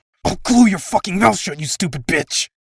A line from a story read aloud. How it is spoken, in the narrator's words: she hissed